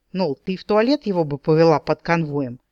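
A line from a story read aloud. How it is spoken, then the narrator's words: Indignant snort. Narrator (Russian): возмущенно фыркнул Дроу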